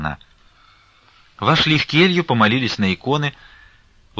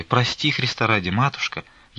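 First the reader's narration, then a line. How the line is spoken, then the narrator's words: Barely audible pleading. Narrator (Russian): Едва слышно оправдывалась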